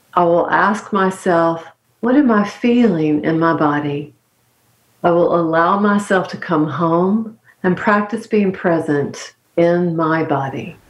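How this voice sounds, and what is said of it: Calming North Carolina accent. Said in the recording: “your great accent ... It's my just, grandfather's accent ... so calming and coasting ... North Carolina”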